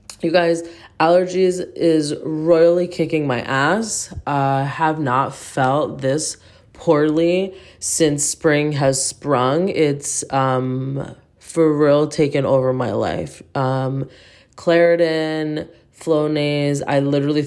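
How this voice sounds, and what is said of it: Deep, congested, man-like voice. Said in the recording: “why do you sound like a man? ... I sound like a man due to allergies”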